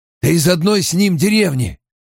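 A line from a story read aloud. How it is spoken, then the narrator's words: Hoarse. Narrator (Russian): хрипло сказал Массима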